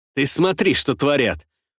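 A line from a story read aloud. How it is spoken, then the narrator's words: Snorting. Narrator (Russian): фыркнул я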